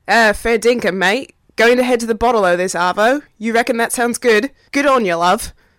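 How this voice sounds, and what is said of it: Poor put-on Australian accent. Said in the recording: “I hope all the Hemsworth brothers, Hugh Jackman and Margot Robbie, are proud of me ... Maybe not that horrible accent”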